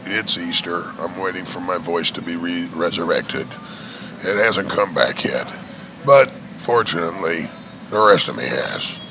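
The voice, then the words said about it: Hoarse, worn-out voice. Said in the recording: “my voice is a little shot.”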